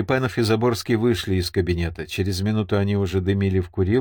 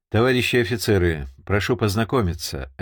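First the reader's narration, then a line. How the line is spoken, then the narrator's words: Formal tone. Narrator (Russian): официальным тоном заговорил подполковник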